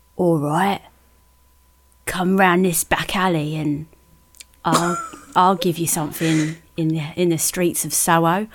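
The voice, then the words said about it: Put-on accent. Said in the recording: “Now, I'm not sure what accent to do.”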